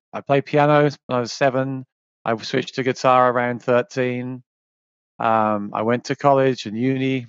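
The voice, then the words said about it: English accent. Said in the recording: “as you can tell from my accent, I'm from England originally”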